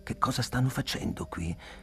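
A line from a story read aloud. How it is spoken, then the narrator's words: Whispering. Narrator (Italian): bisbigliai a Tublu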